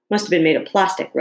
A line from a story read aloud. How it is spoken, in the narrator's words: Rose said, laughing